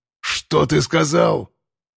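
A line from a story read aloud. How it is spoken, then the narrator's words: Lion-like roar from small dog. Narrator (Russian): Рычание собачонки превратилось в рык настоящего льва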